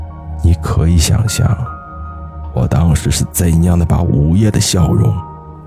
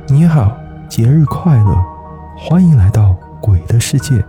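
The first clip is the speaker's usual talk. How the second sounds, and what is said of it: Cold, icy girl's voice. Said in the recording (Chinese): “一个女孩子的声音，她仍然用一种冰冷的声音说道”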